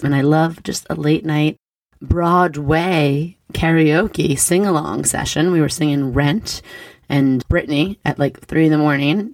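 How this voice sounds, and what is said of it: Slightly raspy, hoarse voice. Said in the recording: “my voice is a little raspy ... I do get party girl voice pretty easily. I, I always lose my voice.”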